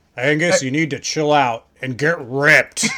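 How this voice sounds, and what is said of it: Imitates another person's voice. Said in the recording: “That's a terrible Dolph impression.”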